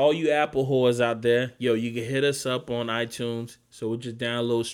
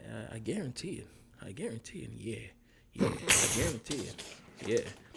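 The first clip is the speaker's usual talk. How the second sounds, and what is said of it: Imitates another person's voice, lower. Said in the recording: “This is my Denzel impersonation ... It sounds like you as a lower voice ... That's my Denzel impersonation.”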